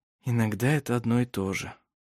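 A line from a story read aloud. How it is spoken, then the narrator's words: Muttered. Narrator (Russian): пробормотал Даниэль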